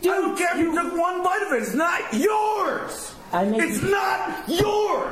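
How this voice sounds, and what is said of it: Angry yelling. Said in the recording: “why are you yelling at me tonight?”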